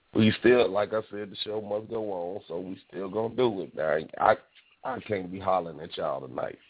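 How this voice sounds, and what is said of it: Hoarse, weakened voice. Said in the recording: “I'm still under the weather... my voice then kind of went out on me... I'm still a little hoarse”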